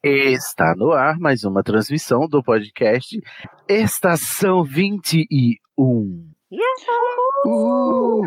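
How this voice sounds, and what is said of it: Radio announcer voice. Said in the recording (Portuguese): “Dessa vez eu tentei fazer voz de radialista”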